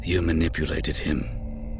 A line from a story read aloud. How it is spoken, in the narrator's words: Cassim said with a sigh of resignation